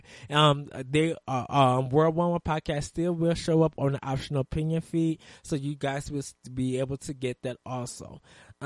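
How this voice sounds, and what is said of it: Strained, hoarse voice. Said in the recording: “Sorry, everybody, I'm losing my voice.”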